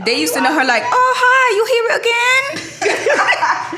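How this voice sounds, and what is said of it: Put-on accent imitating a waitress. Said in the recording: “I'm sorry if anybody gets offended by my accent, but that's literally how she was talking.”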